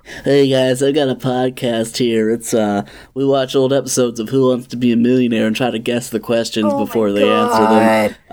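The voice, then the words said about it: Imitates another person's voice. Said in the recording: “this is my Regis Philbin impression”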